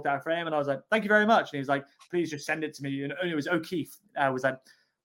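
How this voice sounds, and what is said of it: Bad impression of another man. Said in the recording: “that's a bad impression as well”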